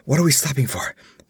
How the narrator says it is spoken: panted Balthus

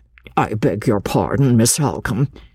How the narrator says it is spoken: interposed the schoolmaster a little uneasily

